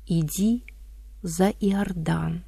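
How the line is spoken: Distant, quiet but distinct. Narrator (Russian): будто издалека, тихо, но отчетливо услышала

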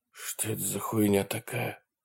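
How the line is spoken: Muttered. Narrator (Russian): пробормотал Брэнсон

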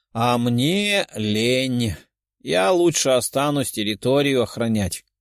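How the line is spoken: Grumbling. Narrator (Russian): проворчала Даша

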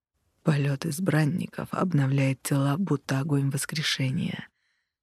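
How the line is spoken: Close whisper. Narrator (Russian): шепнул мне почти в губы ЛСД

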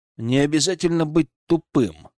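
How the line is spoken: Snorting smirk. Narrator (Russian): хмыкнул

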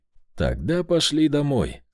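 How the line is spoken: Calm. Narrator (Russian): спокойно сказал я

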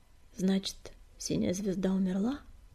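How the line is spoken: Sad sigh. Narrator (Russian): печально вздохнул Горелый

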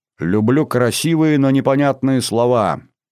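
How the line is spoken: Snide remark. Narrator (Russian): ехидно выразилась Сулима

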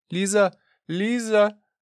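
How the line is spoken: Shouting. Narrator (Russian): закричала Мария Дмитриевна

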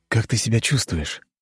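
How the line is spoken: Tender question. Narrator (Russian): нежно спросил я у Анны

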